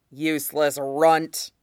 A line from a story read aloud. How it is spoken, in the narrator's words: had growled